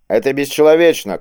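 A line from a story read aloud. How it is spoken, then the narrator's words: A captive's shout. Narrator (Russian): крикнул кто-то из пленников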